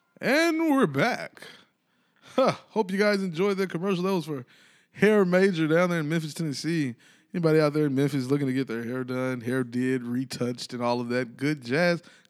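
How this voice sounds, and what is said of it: Newscaster-style announcer voice. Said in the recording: “my white person news voice? ... That's a good voice. ... That's just my news voice”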